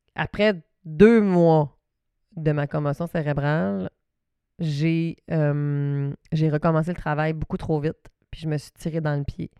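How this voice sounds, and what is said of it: Saguenay regional French accent. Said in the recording (French): “mon petit accent du Saguenay”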